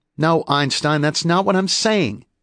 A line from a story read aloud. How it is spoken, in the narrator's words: she snapped